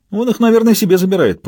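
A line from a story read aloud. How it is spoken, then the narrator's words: Companion joking. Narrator (Russian): пошутил его спутник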